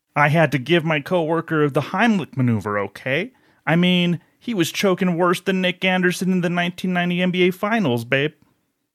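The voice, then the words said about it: Dennis Miller impression. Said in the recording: “little Dennis Miller”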